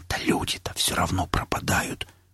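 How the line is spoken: Whispered objection. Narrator (Russian): возразил Костик почему-то шепотом

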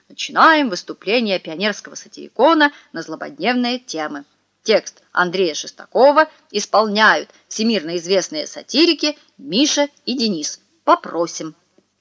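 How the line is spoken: Announcer's voice. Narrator (Russian): Люся объявила дикторским голосом

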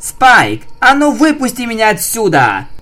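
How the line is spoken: Roar. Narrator (Russian): взревела Рейнбоу

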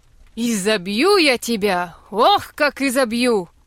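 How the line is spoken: Mother shouting. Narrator (Russian): кричала мать

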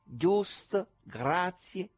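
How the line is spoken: Wizard speaking slowly. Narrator (Italian): diceva lentamente il mago

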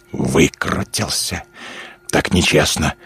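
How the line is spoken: Hiss. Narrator (Russian): зашипел Руф

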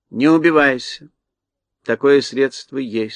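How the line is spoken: Calm sorceress. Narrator (Russian): спокойно молвила волшебница

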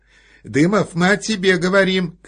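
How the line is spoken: Shouting. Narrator (Russian): крикнула она мужу

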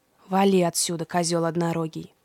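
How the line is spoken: Grumbling. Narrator (Russian): проворчал Фавнир

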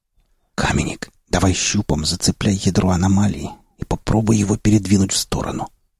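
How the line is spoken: Entranced whisper into microphone. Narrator (Russian): прошептал я в микрофон, не в силах отвести взгляд от завораживающего зрелища

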